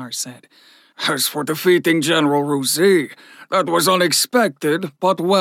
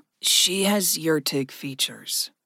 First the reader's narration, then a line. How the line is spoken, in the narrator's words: Gregory said softly